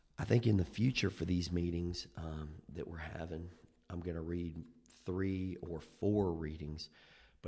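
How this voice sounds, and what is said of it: Unwell, sick-sounding voice. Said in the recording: “as you can tell from my voice, I am not feeling 100%.”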